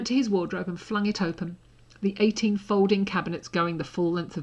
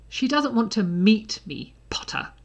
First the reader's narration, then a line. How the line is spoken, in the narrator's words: Draco snapped